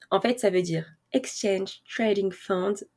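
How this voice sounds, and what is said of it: Self-mocked English pronunciation. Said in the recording (French): “Vous notez mon accent anglais euh, exceptionnel.”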